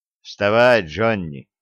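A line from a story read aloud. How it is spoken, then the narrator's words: Tired. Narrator (Russian): сказал он устало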